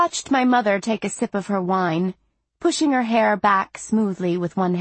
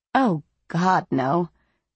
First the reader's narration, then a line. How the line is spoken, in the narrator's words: she said in her deep, raspy voice